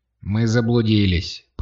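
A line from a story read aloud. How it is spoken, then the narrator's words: Grumbling. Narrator (Russian): проворчала Катя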